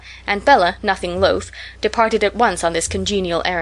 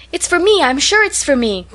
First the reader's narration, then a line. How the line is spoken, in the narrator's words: cried half a dozen voices